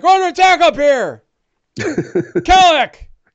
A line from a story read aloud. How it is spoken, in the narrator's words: he yells upstairs